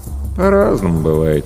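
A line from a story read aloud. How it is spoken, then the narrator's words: Lazy reply. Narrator (Russian): лениво отозвался Денис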